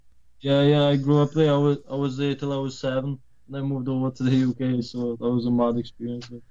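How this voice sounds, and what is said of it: Polish accent. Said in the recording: “he's from the UK. I heard Irish. ... Polish, that's what it is. And Polish originally, but that's where the accent comes in.”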